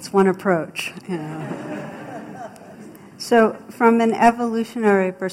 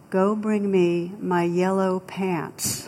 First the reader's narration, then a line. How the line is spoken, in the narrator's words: the captain very calmly replied